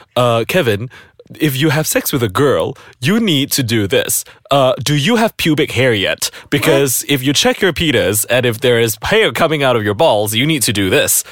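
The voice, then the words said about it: Imitates another person's voice. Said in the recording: “Why does your dad sound like Dr. Phil? ... my impression of my dad”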